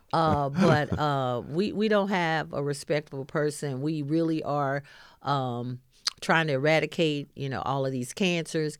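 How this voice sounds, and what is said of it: Arkansas Southern American dialect. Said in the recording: “we're from Arkansas. You can tell by our dialect that we're not from, you know, upstate New York.”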